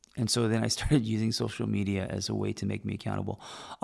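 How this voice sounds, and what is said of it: Strained, fading voice. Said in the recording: “losing my voice,”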